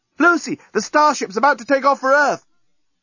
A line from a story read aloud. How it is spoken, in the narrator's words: the journalist, shouting from the breakwater